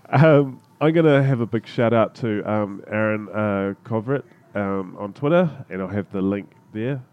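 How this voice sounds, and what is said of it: Congested, blocked-up voice from a cold. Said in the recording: “I've got a cold. ... I'm feeling myself getting more and more blocked up ... the coughs and the sniffles”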